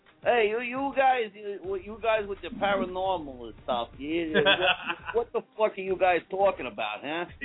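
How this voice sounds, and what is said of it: Put-on Brooklyn accent. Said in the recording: “I can actually do a pretty good Brooklyn accent. ... You sound like Bruce Tango, man.”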